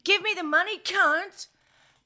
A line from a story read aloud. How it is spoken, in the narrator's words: Sam yelled